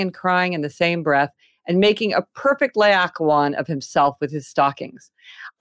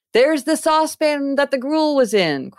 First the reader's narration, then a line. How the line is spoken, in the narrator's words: cried Scrooge